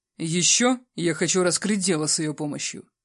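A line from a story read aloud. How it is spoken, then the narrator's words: Calm. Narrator (Russian): проговорил спокойно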